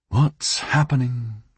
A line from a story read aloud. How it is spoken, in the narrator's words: sighed